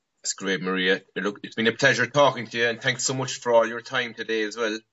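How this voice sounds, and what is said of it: Cute-sounding accent. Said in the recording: “I love your accent. Yeah. It's so cute.”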